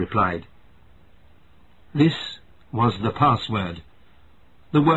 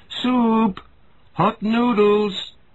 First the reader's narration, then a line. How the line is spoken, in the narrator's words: Mother cried